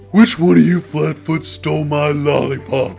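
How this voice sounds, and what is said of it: Impression of Patrick Star. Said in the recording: “your favorite impression... Patrick Starr... You like when I do Patrick Starr?”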